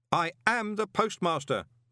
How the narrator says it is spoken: Moist shouted

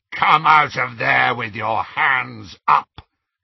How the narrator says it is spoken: came a rasping voice through the darkness

